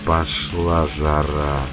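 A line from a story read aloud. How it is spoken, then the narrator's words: Grim smirk. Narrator (Russian): мрачно усмехнувшись, произнес Мечин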